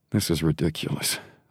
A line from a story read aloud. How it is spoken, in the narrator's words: Hudson murmured under his breath